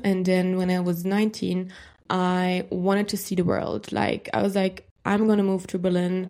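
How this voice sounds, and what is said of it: German accent in English. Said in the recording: “I'm from Germany, which you can probably hear from my accent.”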